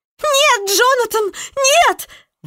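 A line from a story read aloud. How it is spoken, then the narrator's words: Shriek. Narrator (Russian): взвизгнула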